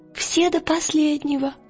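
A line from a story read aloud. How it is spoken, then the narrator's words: Whispered confirmation. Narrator (Russian): подтвердил Пантелеймон, шепотом, как Лира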